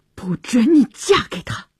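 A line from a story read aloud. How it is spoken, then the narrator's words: Through gritted teeth. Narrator (Chinese): 乔治咬牙切齿地说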